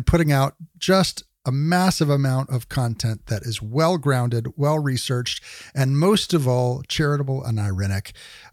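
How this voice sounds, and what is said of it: Smooth radio voice. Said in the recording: “you got a good, smooth radio voice.”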